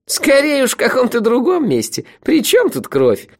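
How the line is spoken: Sudden burst of laughter. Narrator (Russian): Неожиданно расхохоталась его прекрасная половина

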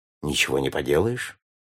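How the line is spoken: Calm remark. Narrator (Russian): спокойно заметил сэр Найджел

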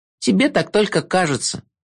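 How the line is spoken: Giggling. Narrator (Russian): хихикнула Агнесса

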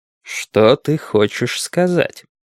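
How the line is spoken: Low ominous question. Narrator (Russian): низким зловещим тоном спросил Мейсон

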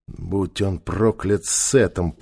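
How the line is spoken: Muttering. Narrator (Russian): пробормотал Нефер

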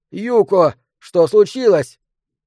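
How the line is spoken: Yelling. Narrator (Russian): он заорал

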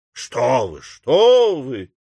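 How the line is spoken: Exclamation. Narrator (Russian): воскликнул Билсби

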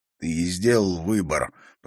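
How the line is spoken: Hoarse rasp. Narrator (Russian): прохрипел Харри

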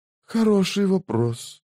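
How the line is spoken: Whisper. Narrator (Russian): прошептал Мурильо

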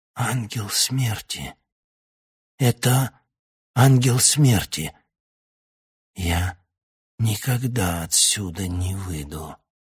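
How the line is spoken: Old man rasping. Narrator (Russian): Старик прохрипел

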